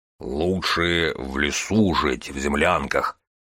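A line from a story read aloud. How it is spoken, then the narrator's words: Gloomy low drone. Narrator (Russian): мрачно прогудел Боригор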